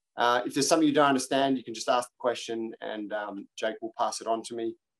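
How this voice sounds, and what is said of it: Australian accent. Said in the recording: “I have an Australian accent. Hopefully it's not too thick.”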